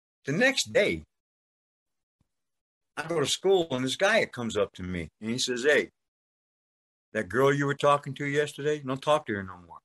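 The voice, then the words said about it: New York accent. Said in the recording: “I got a New York accent”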